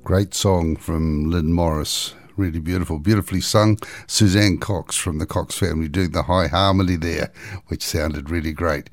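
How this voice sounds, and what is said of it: Voice slightly altered after illness. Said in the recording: “my voice sounds a little bit different this week ... a sort of hacking cough”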